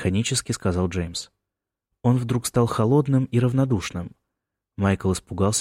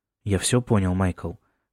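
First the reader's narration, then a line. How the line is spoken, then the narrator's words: Calm. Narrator (Russian): спокойно сказал тот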